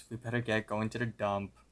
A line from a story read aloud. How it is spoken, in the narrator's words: Both of them sigh, and Mordecai finally says